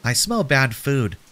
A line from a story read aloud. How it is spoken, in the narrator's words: squeaked